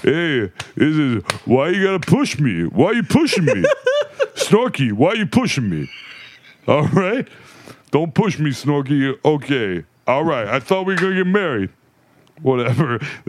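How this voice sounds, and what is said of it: Sylvester Stallone impression. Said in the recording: “my impersonation of Alex doing Sylvester Stallone”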